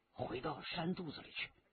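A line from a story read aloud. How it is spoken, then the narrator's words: Low voice in ear. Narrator (Chinese): 李元直在他耳边低声的说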